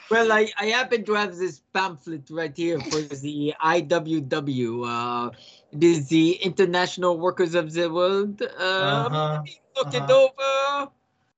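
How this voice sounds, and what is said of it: Put-on French accent. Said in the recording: “the French accent”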